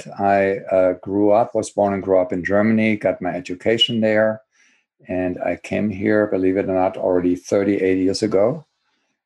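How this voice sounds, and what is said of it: German accent. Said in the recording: “as you can probably hear from my accent”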